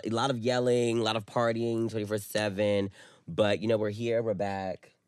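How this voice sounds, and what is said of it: Hoarse, nearly lost voice. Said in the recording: “My voice is about gone because of, you know, girl.”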